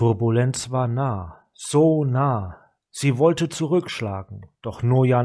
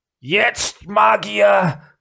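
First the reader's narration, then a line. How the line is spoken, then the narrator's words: Growled. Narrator (German): knurrte Gideon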